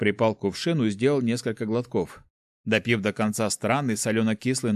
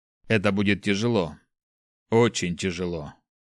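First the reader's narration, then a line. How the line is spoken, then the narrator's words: Sigh. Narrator (Russian): вздохнул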